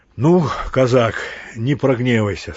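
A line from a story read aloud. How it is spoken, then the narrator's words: Said with a laugh. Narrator (Russian): сказал Торчаков и засмеялся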